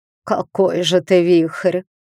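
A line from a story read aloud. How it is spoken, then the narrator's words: Old woman's snort. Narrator (Russian): хмыкнула старуха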